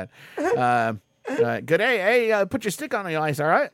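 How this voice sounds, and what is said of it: Put-on mixed Australian-Canadian accent. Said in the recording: “Australian? ... I'm doing Aussie French, okay? ... I can't even do the accent now.”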